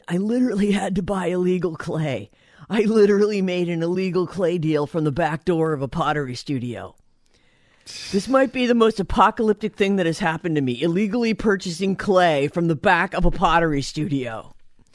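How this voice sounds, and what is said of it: Seth Rogen impression. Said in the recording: “That's my Seth Rogen impression”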